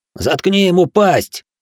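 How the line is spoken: Barked, cowardly youth, terrified. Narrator (Russian): рявкнул Юэда, тот самый трусоватый парень из Фукуроу, в жутких белых глазах которого до сих пор светился предсмертный ужас

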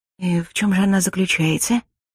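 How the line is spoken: Barely audible question. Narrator (Russian): Так же еле слышно поинтересовалась я

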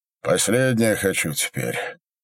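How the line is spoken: Sigh. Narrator (Russian): Минька вздохнул

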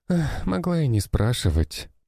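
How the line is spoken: Sighing. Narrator (Russian): вздохнула Нина

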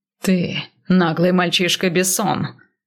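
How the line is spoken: Growling. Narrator (Russian): прорычал он Гер

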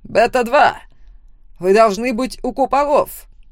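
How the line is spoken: Barked. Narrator (Russian): Рявкнул

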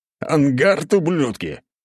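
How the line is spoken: Shouting. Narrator (Russian): кричал он

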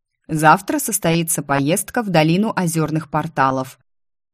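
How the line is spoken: King's booming voice. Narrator (Russian): вдруг прогремел голос короля

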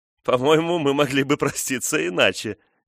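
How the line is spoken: Shout, then ringing laughter. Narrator (Russian): крикнула Фрона и звонко расхохоталась

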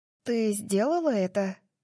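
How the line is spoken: Muffled breathy whisper. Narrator (Russian): Дарси выдохнула, пряча слова за ладонью

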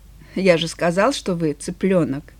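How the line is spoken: Calm. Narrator (Russian): Он спокойно произнес

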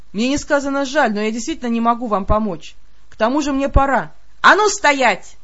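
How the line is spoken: Barked shout. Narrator (Russian): рявкнула

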